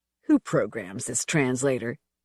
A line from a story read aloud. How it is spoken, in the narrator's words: Sean snarled in a whisper